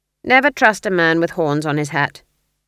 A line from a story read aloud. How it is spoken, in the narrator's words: said Granny flatly